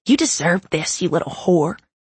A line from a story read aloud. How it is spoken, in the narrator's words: she whispered